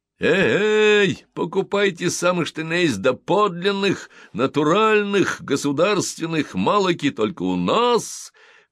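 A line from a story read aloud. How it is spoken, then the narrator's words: Hoarse hawker's cries. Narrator (Russian): хрипло выкрикивала Би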